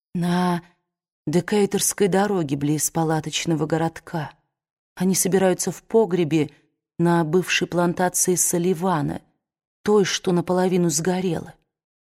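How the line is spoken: Calm but trembling. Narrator (Russian): Она спокойно, хотя и дрожащим голосом, сказала

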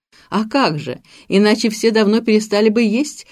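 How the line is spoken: Explaining through laughter. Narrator (Russian): объясняет сквозь смех Октавия

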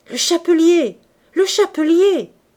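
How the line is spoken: Yelling. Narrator (French): hurlait Coupeau

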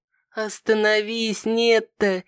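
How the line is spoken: Tired, soft chuckle. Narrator (Russian): с тихим смешком произнесла, устало

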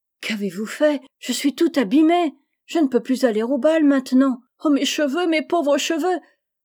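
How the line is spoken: Despairing moan. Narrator (French): gémit avec désespoir

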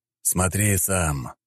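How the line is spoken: Sighing. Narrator (Russian): вздохнул Леонид

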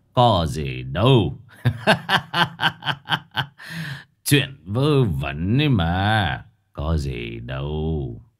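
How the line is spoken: Laughing. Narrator (Vietnamese): Ông thầy Khuyết bấy giờ mới bật cười

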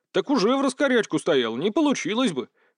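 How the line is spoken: Snort. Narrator (Russian): хмыкнул

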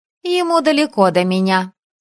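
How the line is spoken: Snorting. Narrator (Russian): хмыкнула Элайза

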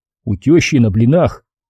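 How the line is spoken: Displeased mutter. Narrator (Russian): недовольно буркнул я

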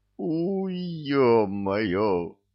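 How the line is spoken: Pained howl. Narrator (Russian): взвыл Горыныч

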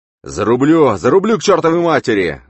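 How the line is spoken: Yelling. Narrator (Russian): завопил он

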